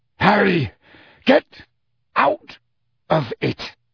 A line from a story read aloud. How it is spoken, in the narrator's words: snarled Sirius